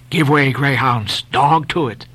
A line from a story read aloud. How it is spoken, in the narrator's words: Then in his old, intense whisper